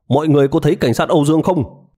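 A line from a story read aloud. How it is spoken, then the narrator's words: Hurried urgent call. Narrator (Vietnamese): một cảnh sát vội vàng kêu lên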